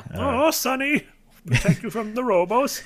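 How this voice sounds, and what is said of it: Russian grandma character voice. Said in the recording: “That's my Russian grandma voice.”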